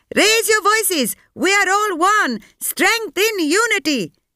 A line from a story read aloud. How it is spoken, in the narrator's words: hollered